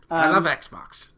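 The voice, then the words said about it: Imitates another person's voice. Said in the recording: “that's your impression”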